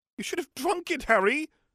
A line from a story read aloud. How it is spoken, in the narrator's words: Hermione screeched